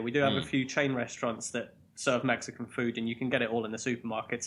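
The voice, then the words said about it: Strong English accent. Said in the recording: “That was weird to hear that in an English accent ... Mexican things that I can throw in strong English accent”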